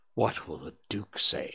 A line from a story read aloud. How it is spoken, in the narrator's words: he murmured